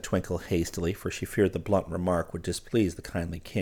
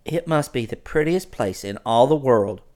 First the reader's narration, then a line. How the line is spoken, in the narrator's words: cried Twinkle with real enthusiasm